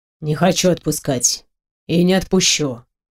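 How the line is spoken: Quiet, firm. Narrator (Russian): ответил он тихо, но твердо

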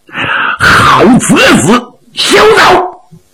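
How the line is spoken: Shouting. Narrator (Chinese): 他喊了一嗓子

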